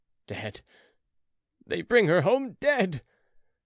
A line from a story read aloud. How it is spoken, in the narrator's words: gasped Philip